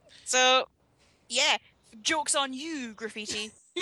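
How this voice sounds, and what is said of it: Noticeable regional accent. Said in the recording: “Was that my accent? ... Yes.”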